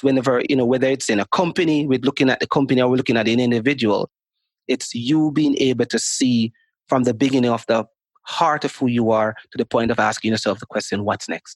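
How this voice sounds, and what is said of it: Jamaican accent. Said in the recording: “that beautiful Jamaican accent you got going over there. It's mesmerizing.”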